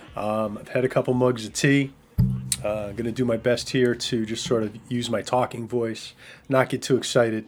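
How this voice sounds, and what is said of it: Strained, weakened voice. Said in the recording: “You can probably hear my voice is still not there.”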